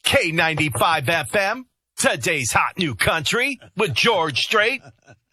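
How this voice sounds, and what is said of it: Country radio announcer voice. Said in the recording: “you go into your country radio voice... Country radio voices are always in syllables.”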